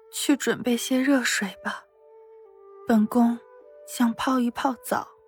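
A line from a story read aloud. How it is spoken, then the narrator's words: Quiet, near tears. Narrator (Chinese): 夏妙玲的眼眶有些发烫，小声说道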